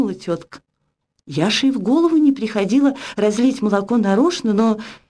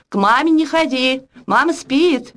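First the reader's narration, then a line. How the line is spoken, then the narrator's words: Nanny shouting after. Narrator (Russian): крикнула нянька вслед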